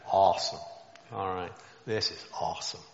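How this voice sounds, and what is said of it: Put-on American accent. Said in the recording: “in my head I can hear the American accent there”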